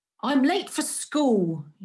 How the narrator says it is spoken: replied sharply

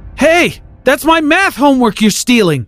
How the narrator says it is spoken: yelled after him

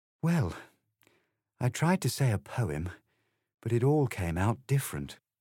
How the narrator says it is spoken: Alice replied in a very melancholy voice

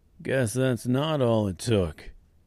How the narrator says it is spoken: said the woodman in a deadpan voice

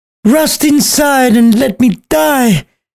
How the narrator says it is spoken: yelled as she stabbed herself

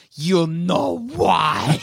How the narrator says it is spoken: Flask of Wine leans down into its ear and hisses

